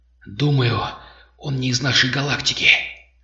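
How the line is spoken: Whispered reply. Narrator (Russian): шепотом ответил Кархан

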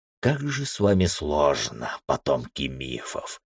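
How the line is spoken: Muttering. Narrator (Russian): пробормотал Джосер

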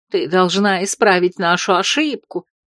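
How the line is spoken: Angry mutter under breath. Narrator (Russian): зло бубнила она под нос

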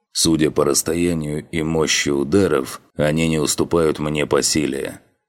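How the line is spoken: Grim. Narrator (Russian): мрачно констатировал он

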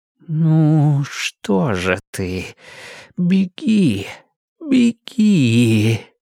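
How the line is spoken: Pleading voice. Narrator (Russian): сказал молящим голосом

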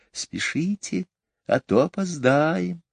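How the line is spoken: Whisper. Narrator (Russian): опять прошептал голос

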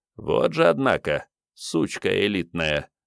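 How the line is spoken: Rough but admiring. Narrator (Russian): грубо, но несомненно комплиментарно сформулировал начальник ПМБД

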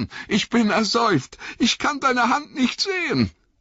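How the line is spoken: Gasping. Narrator (German): keuchte Sam

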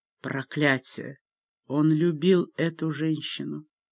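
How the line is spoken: Sighing. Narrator (Russian): Он вздохнул

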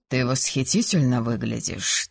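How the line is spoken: Quiet voice. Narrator (Russian): тихо произнес он

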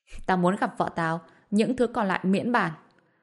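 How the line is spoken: Cold laughing. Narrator (Vietnamese): Bạch Diệp Phi lạnh lùng bật cười

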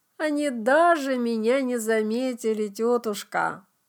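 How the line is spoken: Tired, smiling. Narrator (Russian): устало улыбнулась Клео

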